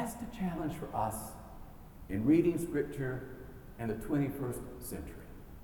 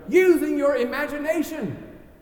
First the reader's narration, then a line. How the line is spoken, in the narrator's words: they yell out together